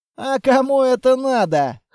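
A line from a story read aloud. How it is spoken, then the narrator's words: Snort. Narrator (Russian): хмыкнул Грязный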